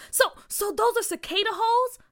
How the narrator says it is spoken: Carr asked excitedly

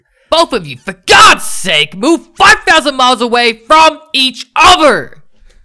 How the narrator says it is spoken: A male friend yelled

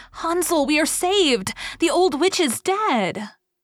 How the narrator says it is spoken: Gretel, however, ran like lightning to Hansel, opened his little stable and cried

